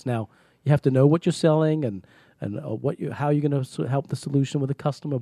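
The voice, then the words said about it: Speaks with a foreign accent. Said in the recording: “I have a stronger accent than I do today ... because of my accent, opened some doors”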